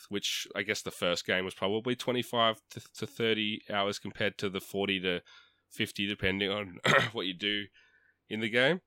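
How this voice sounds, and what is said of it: Sick voice, cracking occasionally. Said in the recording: “I'm just kind of sick, so that's why my voice is cracking occasionally. ... He's choking up.”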